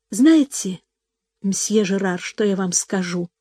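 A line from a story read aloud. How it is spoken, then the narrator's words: Quiet. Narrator (Russian): тихо проговорила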